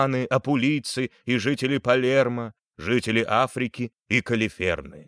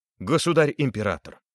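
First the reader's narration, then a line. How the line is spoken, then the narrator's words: Plain. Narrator (Russian): сказал Жофрей Анжуйский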